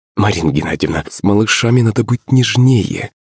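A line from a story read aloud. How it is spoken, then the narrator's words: Tender sweet voice. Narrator (Russian): Пышка обратилась ко мне нежным голоском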